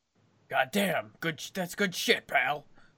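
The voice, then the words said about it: Angry impression lacking vocal gravel. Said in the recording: “did a pretty good one just now. ... you've got the anger, but you don't have the gravel in your voice.”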